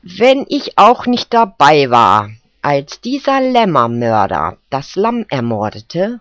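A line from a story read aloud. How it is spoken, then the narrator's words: Plain. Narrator (German): sagte Wühler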